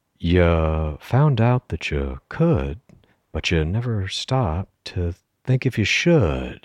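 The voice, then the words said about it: Jeff Goldblum impression. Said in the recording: “do my Jeff Goldblum”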